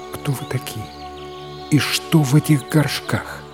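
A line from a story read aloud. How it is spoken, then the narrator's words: Quiet question. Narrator (Russian): она лишь тихо спросила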